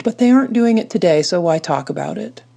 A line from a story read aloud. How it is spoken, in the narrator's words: sighed